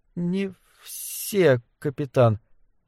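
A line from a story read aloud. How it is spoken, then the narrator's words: Barely audible. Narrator (Russian): едва слышно ответила она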